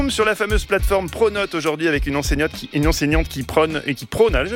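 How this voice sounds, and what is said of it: Usual voice. Nothing is said of it.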